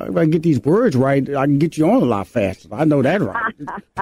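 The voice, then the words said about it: Houston, Texas accent. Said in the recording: “my old country, Houston, Texas accent, I'm talking slowing down when I'm supposed to speed up”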